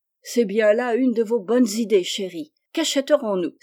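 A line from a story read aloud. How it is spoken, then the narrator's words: Exclaiming. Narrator (French): s'écria Jo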